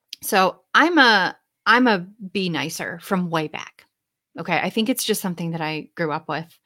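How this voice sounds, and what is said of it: Midwestern accent, nasal tone. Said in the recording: “my really charming Midwestern accent and nasally tone”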